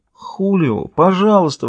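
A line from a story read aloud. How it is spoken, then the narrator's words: Mother pleading. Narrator (Russian): взмолилась мать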